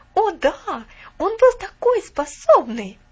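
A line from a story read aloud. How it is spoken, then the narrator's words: Exclaimed. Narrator (Russian): воскликнула Алида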